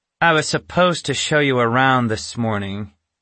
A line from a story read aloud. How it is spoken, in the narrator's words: she finally said in the bitter tone of a teacher who hated her job